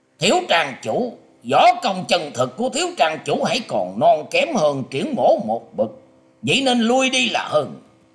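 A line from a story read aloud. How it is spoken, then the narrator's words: Harsh emphatic voice. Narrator (Vietnamese): Triển Hoành liền gằn giọng nói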